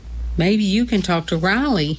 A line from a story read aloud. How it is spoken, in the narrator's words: And then she looked kindly at me and said